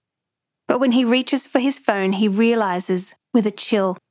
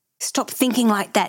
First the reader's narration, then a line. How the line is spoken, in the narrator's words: tells himself sharply